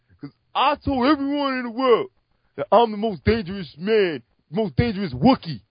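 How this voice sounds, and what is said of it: Imitates another person's voice. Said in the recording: “That's a pretty good impersonation. ... I actually thought I had a sound clip there for a second”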